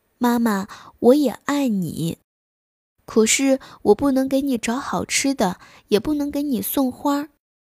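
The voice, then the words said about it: Quiet, soft voice. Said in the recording (Chinese): “小声地说”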